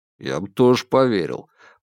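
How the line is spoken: Grumbling. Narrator (Russian): проворчал Бабкин

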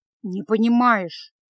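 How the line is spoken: Gloomy mutter. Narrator (Russian): мрачно пробормотал Кард

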